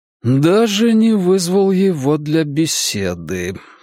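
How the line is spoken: Breathed out. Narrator (Russian): выдохнул он

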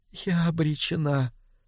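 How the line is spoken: Barely audible. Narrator (Russian): сказала она, едва слышно

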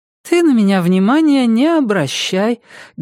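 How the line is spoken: Sweet-voiced. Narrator (Russian): говорю сладким голосом

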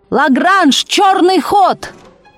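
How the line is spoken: Desperate shout. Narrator (Russian): Матвей Бенционович отчаянно крикнул

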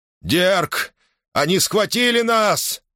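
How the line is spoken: Yelling. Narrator (Russian): завопил Лин Кайл

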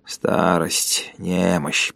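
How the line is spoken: Muttered. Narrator (Russian): пробормотал он

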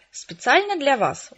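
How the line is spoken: Said smiling, joyfully by mother. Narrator (Russian): улыбнулась мама, радостно

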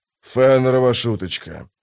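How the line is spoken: Grumbling. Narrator (Russian): проворчал он

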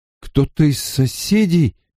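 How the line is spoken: Uncertain. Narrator (Russian): неуверенно сказал Ранд

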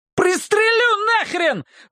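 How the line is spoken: Screaming. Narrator (Russian): вопит

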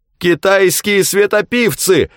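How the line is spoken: Shout. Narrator (Russian): закричал Нельсон

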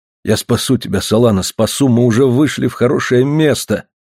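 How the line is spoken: Muttering. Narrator (Russian): бормотал он

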